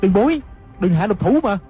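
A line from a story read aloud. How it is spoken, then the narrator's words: Crying out. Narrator (Vietnamese): Hư trúc la lên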